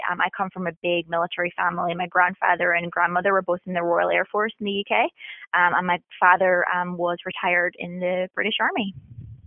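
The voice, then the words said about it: Northern Irish accent. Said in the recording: “born and bred in Northern Ireland ... the accent kind of dips in a little bit and out”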